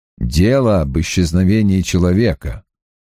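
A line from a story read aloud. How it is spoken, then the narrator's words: Calm. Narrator (Russian): спокойно закончил Страйк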